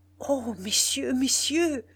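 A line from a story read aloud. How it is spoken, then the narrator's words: Stammered. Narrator (French): bégaya-t-il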